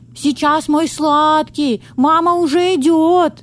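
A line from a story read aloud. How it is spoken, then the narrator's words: Shout. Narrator (Russian): прокричала Медея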